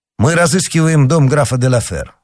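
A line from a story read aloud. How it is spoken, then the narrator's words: Plain. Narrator (Russian): сказал Д'Артаньян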